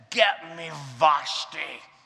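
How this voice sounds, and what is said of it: Drunken Scottish-accented impression of another person's voice. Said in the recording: “That's my Sean Connery drunk impersonation.”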